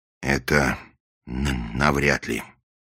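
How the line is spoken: Gloomy. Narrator (Russian): мрачно ответил голос

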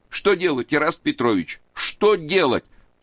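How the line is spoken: Sobbing. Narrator (Russian): всхлипывал Луков

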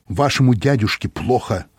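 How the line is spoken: Plain. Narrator (Russian): сказал

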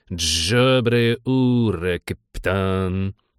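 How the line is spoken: Gurgling creak. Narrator (Russian): булькнул, проскрипел высокий

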